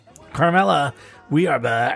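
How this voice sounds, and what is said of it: Put-on movie-style voice. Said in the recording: “I don't know why I'm doing this voice. I feel like I'm doing a movie.”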